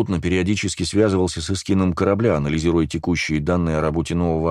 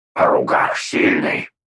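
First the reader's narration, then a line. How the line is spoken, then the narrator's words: Growled. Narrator (Russian): прорычал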